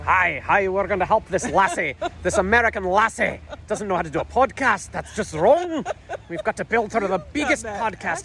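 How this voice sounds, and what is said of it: Put-on accent. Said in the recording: “Accent”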